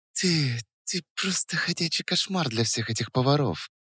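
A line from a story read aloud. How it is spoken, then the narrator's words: Breathed out. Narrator (Russian): выдохнула она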